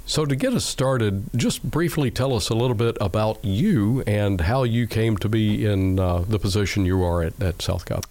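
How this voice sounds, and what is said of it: Rough, unwell-sounding voice. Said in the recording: “sorry for my voice. ... I woke up sounding like I feel horrible”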